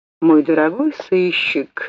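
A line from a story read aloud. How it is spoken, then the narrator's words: Sigh. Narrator (Russian): вздохнул достопочтенный ГТТ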